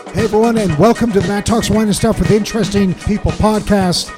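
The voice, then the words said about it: Hoarse, strained voice. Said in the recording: “that's the day that I lose my voice.”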